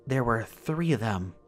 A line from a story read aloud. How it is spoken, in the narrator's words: she continued, her voice calm and wispy